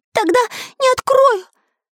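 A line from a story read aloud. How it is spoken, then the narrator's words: Squealed. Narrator (Russian): взвизгнул Карандаш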